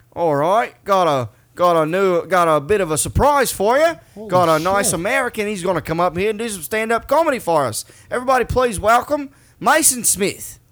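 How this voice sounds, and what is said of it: Put-on Australian accent. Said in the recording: “I can do a good Australian accent ... I can do a pretty decent one ... Yeah, that's really good.”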